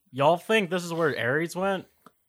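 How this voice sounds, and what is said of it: Put-on redneck accent. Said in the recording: “copying Pierce's accent ... weird redneck”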